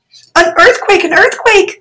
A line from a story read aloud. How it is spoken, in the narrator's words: people shouted